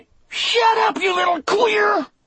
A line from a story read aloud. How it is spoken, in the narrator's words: Percy yelled back, so furious